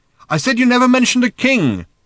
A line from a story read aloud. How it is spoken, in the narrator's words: shouted Arthur again